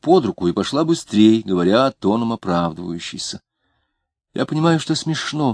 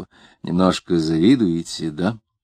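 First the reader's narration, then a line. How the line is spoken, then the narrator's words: Almost tender question. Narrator (Russian): он спросил почти ласково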